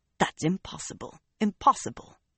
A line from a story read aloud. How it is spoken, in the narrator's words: Bera actually muttered